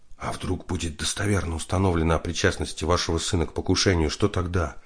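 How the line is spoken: Whispered question. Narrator (Russian): Викентий Андреевич замолчал, раздумывая, как бы помягче выразиться, а затем спросил шепотом

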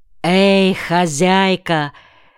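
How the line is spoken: Hoarse call. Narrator (Russian): хрипло позвал кто-то

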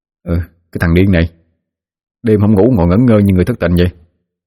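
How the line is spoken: Drowsy grumbling mumble. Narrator (Vietnamese): Đoàn hé mắt tỉnh dậy, lào bầu nói

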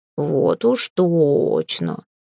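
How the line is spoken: Drawling. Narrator (Russian): протянул Филя

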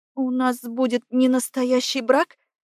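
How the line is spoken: Trembling question. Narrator (Russian): Спрашиваю дрожащим голосом

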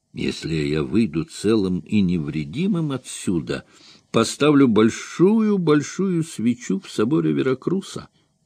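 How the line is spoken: Whisper. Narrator (Russian): прошептал

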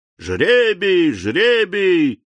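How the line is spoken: Group shouting. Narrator (Russian): закричали разбойники

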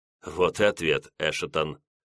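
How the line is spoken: Smirking remark. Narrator (Russian): усмехнулся тихо сидевший в углу штатский

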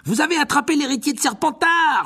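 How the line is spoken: Schoolgirl exclaiming. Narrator (French): s'écria une élève de Serdaigle

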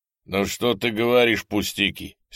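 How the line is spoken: Angry interruption. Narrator (Russian): сердито перебил Калугин

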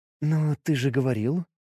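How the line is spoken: Quiet, sincere. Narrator (Russian): произнесла тихо и без тени насмешки

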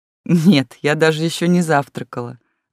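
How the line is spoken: Laughing. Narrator (Russian): засмеялась Лис

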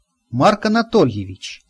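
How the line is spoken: Thoughtful. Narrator (Russian): задумчиво произнес я

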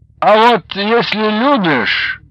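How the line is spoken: Sleepy mumble. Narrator (Russian): сонным голосом пробормотал Баландин

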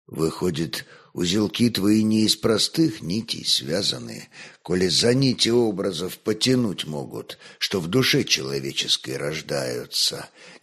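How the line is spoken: Quietly. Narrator (Russian): негромко проговорил боярин

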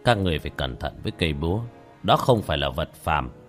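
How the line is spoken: Old man, soft slow sigh. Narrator (Vietnamese): Lão khẽ thở dài chậm rãi

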